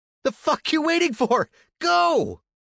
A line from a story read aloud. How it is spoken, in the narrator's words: his brother just screamed